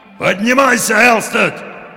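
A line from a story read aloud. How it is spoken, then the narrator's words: Impatient shout, old sailor. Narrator (Russian): в нетерпении закричал старый морской волк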